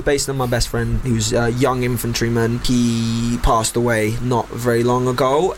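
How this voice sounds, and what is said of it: North London accent with street inflection. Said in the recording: “my accent probably is quite North London now at this point ... you've got the street thing going on as well”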